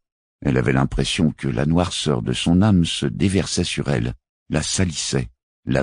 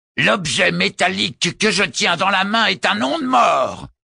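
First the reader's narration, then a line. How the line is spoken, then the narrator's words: Roared. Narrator (French): rugit Grokaoman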